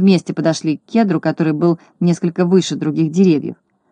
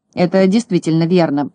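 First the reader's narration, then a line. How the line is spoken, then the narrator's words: Grumbling. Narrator (Russian): проворчал Крабс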